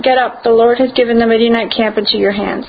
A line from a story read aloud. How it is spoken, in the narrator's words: called out